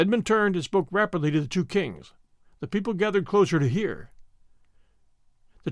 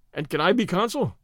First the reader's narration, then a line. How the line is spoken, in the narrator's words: said Stedman cheerfully